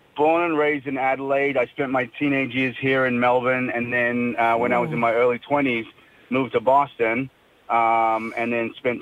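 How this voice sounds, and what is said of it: Mixed Australian and Boston accent. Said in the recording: “American twang ... I sound more Aussie than anything ... It is a unique accent ... like Ray Donovan ... a mongrel accent ... New York and Boston”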